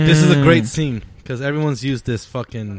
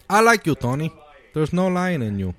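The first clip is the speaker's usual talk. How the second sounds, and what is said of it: Put-on Bolivian accent. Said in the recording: “It's like Bill Hader trying to do a Bolivian accent.”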